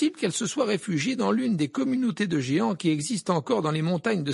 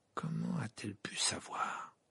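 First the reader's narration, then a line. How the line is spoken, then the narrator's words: Murmuring. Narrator (French): murmura-t-il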